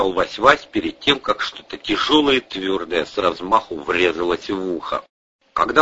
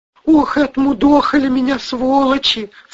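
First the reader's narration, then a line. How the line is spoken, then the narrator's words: Sobbing. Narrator (Russian): всхлипывал он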